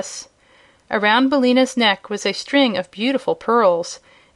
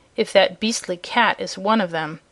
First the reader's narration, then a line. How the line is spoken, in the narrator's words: said Billina scornfully